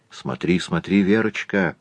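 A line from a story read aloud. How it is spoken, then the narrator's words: Mother's whisper. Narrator (Russian): зашептала толстая мать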